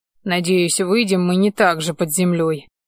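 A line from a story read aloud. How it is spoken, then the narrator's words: Grumbled. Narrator (Russian): пробурчал я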